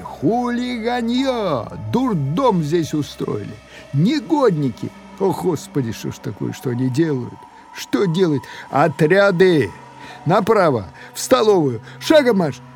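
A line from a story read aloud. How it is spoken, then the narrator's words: Two voices yelling together. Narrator (Russian): не сговариваясь, оба заорали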